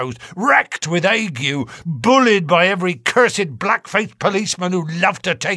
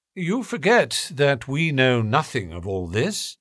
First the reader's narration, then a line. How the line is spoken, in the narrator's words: said Holmes, quietly